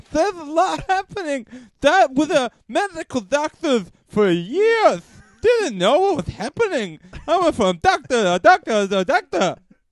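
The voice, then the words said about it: Goofy unplaceable foreign accent. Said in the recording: “There's kind of even Asian in there ... I've never heard such an accent ... it's like a deaf Greek ... It's kind of goofy”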